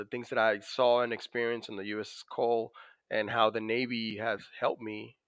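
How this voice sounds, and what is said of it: Dominican accent in English. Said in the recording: “as you could probably notice from my accent, I was born in the Dominican Republic”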